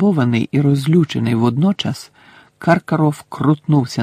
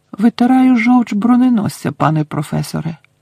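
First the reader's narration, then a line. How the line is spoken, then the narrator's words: Innocent tone. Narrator (Ukrainian): невинним тоном сказав Гаррі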